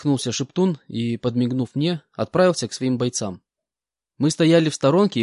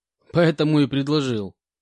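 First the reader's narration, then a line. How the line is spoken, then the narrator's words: Laughing reply. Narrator (Russian): рассмеявшись, ответил Спартак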